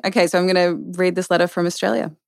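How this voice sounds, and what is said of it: Australian accent. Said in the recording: “it makes her so much sexier with the Aussie accent ... The accent is a benefit for sure.”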